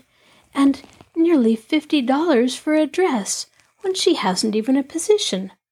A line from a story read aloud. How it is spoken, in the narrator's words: Nancy exclaimed